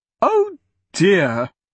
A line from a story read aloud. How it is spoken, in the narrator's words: Bernice exclaimed as the carriage bounced again